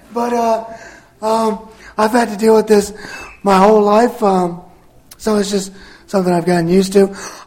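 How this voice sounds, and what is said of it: Strained voice, sounds like sore throat. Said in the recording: “My voice. And I know what y'all are thinking. Oh, you're probably sick. ... I have a paralyzed vocal cord. So unfortunately, I sound like this all the time. ... my voice is just strained ... I sure wish he'd clear his throat or drink some of that water”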